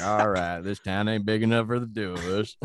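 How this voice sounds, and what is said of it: Cowboy voice impression. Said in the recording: “your cowboy impression”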